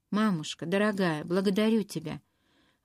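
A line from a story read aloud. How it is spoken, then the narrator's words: Sighing. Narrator (Russian): Вздохнула она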